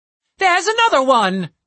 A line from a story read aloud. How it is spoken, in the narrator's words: cried Zanzifurl